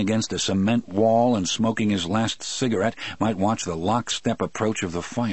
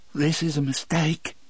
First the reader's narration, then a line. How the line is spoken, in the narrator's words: Brutal said in a hissy little voice